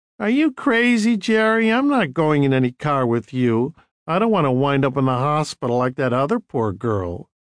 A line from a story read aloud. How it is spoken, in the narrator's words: one of the girls laughing and saying